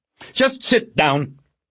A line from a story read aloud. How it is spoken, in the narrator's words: Pounds snapped